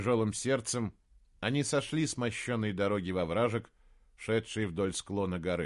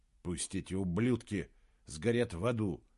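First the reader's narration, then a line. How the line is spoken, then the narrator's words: Barely audible grumble. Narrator (Russian): Едва слышно проворчал он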